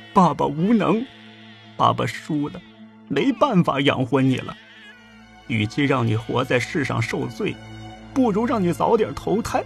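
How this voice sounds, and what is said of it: Quiet, murmured speech. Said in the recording (Chinese): “小声地念叨着”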